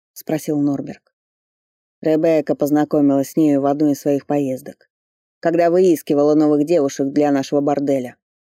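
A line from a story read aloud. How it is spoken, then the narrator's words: Calm reply. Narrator (Russian): спокойно ответил Кларенс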